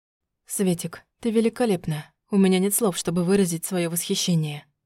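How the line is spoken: Breathless. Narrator (Russian): выдохнул он

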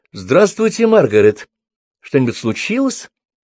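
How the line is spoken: Forced calm, confident tone. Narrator (Russian): Брук старалась говорить как можно более спокойно и уверенно

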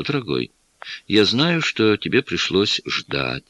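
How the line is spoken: Affectionate. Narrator (Russian): ласково произнесла

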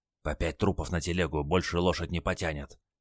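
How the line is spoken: Old man whispering. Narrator (Russian): шепнул дед

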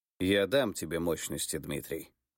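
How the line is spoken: Plain. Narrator (Russian): сказал царь

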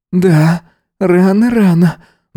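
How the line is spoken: Sighing. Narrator (Russian): вздохнул он

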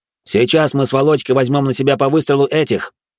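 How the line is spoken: Quick speech. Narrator (Russian): быстро проговорил Арташес

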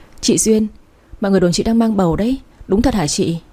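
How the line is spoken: Soft laughing speech. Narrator (Vietnamese): khẽ cười bảo

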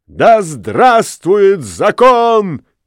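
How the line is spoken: Crowd shouting. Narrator (Russian): крикнул весь народ

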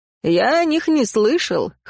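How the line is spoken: Snort. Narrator (Russian): хмыкнул

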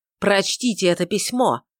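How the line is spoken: Sharp demand. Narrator (Russian): резким тоном потребовал Филипп

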